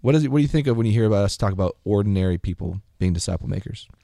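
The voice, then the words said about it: Polished podcast-host delivery. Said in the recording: “Didn't you hear my podcast voice? That question was a podcast question voice.”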